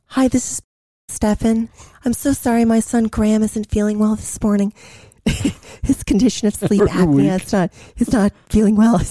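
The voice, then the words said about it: Imitates a mother's voice. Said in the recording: “I did a good imitation of my mom ... I'm doing a bad job ... that's good. Yeah. That's really good.”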